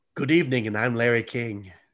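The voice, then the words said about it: Imitates another person's voice. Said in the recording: “my Larry King impersonation.”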